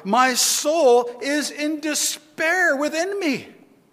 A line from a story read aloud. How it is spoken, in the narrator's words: he cried